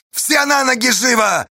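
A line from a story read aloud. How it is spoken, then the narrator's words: Yelling into tube. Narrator (Russian): заорал Осташа в трубу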